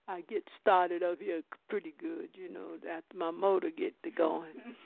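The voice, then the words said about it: Slightly hoarse voice. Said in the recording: “my voice is a little try to get a little hoarse”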